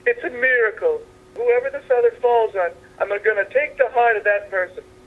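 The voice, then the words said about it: Put-on Italian accent. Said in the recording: “you got the Italian Catholic accent there”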